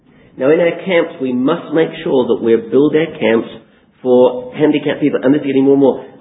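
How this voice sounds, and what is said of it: Voice in poor condition. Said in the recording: “my voice isn't very good tonight”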